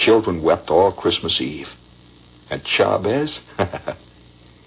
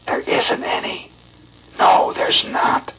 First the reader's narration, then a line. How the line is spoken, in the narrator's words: whispering low to every tot